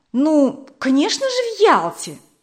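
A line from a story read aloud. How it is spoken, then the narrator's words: Exclamation. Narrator (Russian): воскликнула Вера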